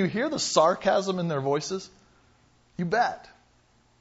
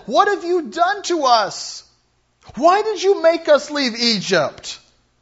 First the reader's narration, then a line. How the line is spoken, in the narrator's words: the whining in their voices